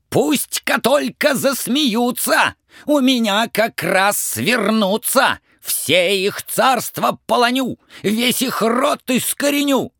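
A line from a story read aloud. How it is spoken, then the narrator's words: Angry shout. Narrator (Russian): Царь со гневом закричал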